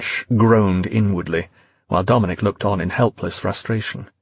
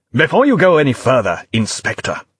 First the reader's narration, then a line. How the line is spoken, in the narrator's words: Wilson barked back, face starting to flush with anger